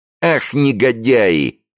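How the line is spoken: Angry shout. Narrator (Russian): крикнул Джо, на которого иногда нападали внезапные приступы гнева

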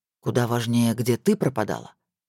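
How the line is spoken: Agitated. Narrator (Russian): Спокойно говорить не получилось

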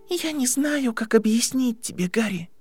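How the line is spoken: Soft, sad. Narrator (Russian): мягко и печально ответила Гермиона

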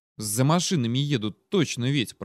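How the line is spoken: Muttered. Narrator (Russian): пробормотал Леха

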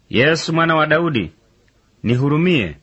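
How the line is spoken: Crying out loudly. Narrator (Swahili): akapaza sauti akisema

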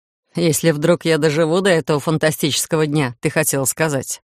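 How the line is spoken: Chuckling. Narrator (Russian): Хохотнул Титан

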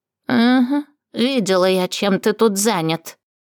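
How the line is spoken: Venomous woman's snort. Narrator (Russian): ядовито фыркнула женщина

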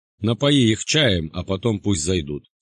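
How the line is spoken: Plain. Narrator (Russian): сказал богатур

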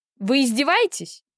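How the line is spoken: Woman yelling. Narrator (Russian): заорала женщина

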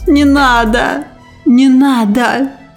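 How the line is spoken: Whimpering plea. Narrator (Russian): заскулила она

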